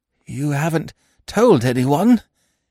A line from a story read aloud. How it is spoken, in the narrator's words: croaked hoarsely